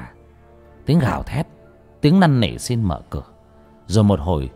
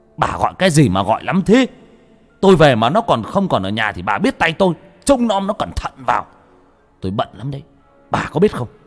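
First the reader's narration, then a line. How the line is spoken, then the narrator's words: Furious screaming. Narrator (Vietnamese): Nó gào thét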